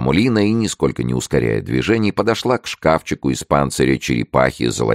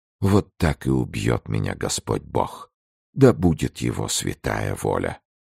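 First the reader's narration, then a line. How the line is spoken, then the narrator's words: Whispering queen. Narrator (Russian): Королева прошептала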